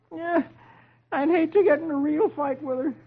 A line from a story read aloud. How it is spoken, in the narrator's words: Dagwood groans